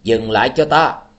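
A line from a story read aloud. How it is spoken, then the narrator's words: Suspicious ringing shout. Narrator (Vietnamese): Tư Đồ Văn thấy hành tung của tên này có vẻ khả nghi, chàng lập tức lên tiếng hét vang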